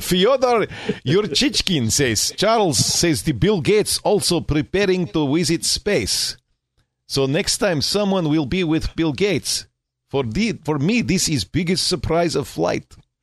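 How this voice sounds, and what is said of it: Put-on Russian accent. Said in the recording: “I gotta do the accent. ... your Russian and your German. And the Russian accent, I don't think is that easy to do”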